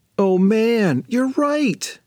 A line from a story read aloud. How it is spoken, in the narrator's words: groaned Sophie